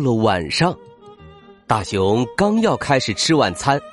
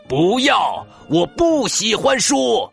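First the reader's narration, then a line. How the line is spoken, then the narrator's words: Shouting. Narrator (Chinese): 大熊喊道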